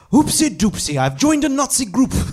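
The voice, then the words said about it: Impression of Sebastian Gorka. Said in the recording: “I'm gonna do my impression now. I'm gonna do my Sebastian. ... Sebastian Gorka”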